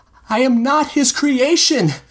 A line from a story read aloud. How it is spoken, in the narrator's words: Alphonse cried back, voice cracking as he spoke